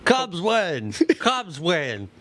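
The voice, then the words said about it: Harry Caray impression. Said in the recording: “You don't do it quite as well as he does. ... his Harry Carey impression.”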